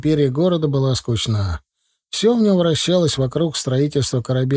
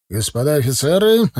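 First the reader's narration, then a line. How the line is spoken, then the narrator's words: Bark. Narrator (Russian): рявкнул Егоров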